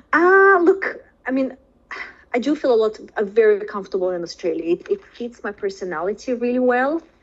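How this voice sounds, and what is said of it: Foreign accent. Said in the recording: “I'm still obviously foreign. I've got an accent ... I still, you know, sound foreign.”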